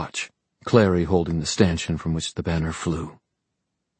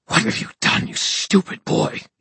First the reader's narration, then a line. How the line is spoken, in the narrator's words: He hissed